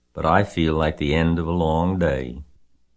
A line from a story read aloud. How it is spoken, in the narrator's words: she said wearily